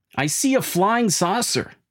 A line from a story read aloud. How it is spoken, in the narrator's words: He screams for his mom